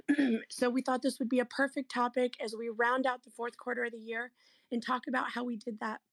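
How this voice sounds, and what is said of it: Hoarse, worn-out voice. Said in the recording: “part of the reason why my voice is gone is because I spent 8 hours yesterday doing a business planning clinic”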